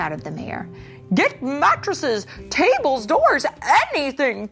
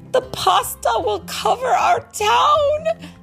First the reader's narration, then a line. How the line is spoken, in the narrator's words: they cried